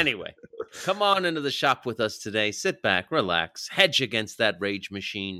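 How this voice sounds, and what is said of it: Usual voice. Nothing is said of it.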